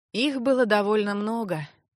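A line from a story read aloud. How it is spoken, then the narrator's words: Heavy sigh. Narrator (Russian): тяжко вздохнул маг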